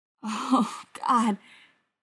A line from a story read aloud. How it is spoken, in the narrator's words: moans, forehead against the wall